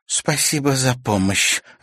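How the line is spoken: Irritated snap. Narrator (Russian): раздраженно бросила Серафима

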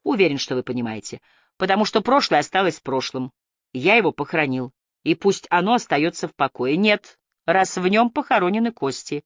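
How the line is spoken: Accusing tone. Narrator (Russian): произнес обвиняющим тоном Эдгар

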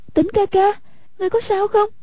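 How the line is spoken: Frightened cry. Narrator (Vietnamese): Hoàng Dung vô cùng ngờ sợ, kêu lên

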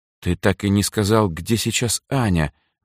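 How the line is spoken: Gloomy interruption. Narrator (Russian): мрачно вмешался Сергей

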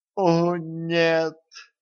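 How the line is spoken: Dismayed groan. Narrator (Russian): простонала Катран, увидев Дениса

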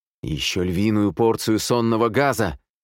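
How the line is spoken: Growled. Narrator (Russian): рыкнул на нее Михаэль

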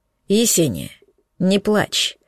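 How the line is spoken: Father's dry voice. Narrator (Russian): сухо проговорил папа

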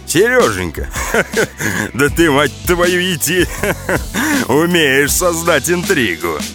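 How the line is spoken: Speaking through laughter. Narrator (Russian): сквозь смех сказал Борзов

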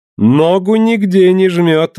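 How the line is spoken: Dandyish voice, then laughing. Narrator (Russian): ответил он голосом пижона в новых штиблетах и захохотал

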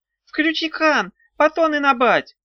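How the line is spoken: Squeaked. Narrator (Russian): пропищал тот самый, говорящий

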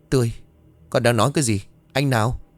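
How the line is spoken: Trembling voice. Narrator (Vietnamese): Giọng đã có phần run rẩy

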